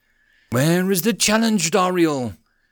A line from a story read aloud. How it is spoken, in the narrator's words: he growled